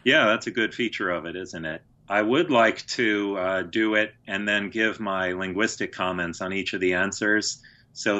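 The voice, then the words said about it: Mixed American-English accent, monotonous, nerdy. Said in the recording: “I have an idiosyncratic accent, which is partly from growing up in Houston and Chicago, and then Boston, and then England, and partly from being an academic, so it's sort of nerdy, and then it's partly sort of autistic and monotonous”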